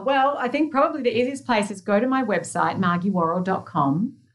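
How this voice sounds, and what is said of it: Non-American accent. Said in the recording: “with my accent to Americans, it sounds like Maggie”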